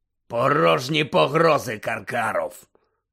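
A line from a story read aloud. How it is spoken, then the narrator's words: Growl. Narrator (Ukrainian): прогарчав чийсь голос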